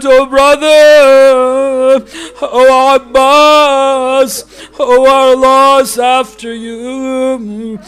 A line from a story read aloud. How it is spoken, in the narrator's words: Zainab heard him revealing the sad news, so she cried out